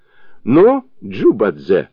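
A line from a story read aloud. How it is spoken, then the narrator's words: Laughing. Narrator (Russian): сказал он сквозь смех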